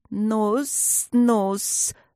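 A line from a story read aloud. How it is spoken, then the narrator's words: Good-natured hissing snake. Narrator (Russian): добродушно зашипела ближняя змея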